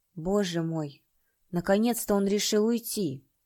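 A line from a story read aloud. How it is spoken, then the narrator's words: Quiet. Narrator (Russian): тихо произнес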